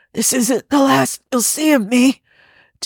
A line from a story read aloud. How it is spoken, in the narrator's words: Devere wheezes